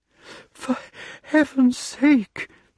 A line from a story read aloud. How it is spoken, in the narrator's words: panted Archimedes